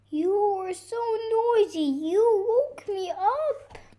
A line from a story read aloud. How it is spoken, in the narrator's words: cried the bear